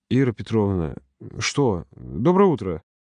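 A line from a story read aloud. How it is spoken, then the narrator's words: Annoyed, through gritted teeth. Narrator (Russian): процедила сквозь зубы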